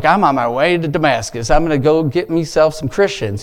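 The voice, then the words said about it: Brief put-on accent. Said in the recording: “Did I have an accent right there? I didn't really mean that.”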